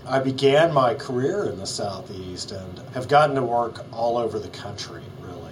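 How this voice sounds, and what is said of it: Southern American accent. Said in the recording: “I'm a gay man from Alabama, so that's why you hear a Southern accent.”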